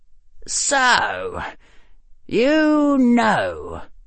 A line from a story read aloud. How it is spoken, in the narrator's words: Harry said, his voice cold